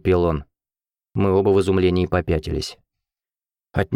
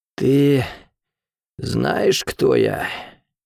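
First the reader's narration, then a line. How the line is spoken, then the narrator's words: Hoarse, gurgling breath. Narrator (Russian): хрипло дышал, в груди что-то клокотало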